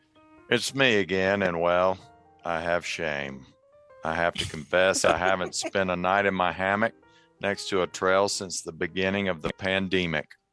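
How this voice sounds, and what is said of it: Put-on Southern US accent. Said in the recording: “please read the following with a Southern accent”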